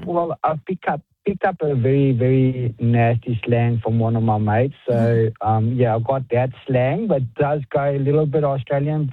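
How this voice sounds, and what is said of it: Strong non-Australian accent. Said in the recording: “the accent's obviously still very strong ... is it always this strong?”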